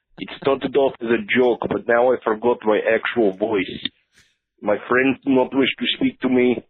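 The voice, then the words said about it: Fake bad Russian accent. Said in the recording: “this bad Russian accent ... He's faking it, obviously”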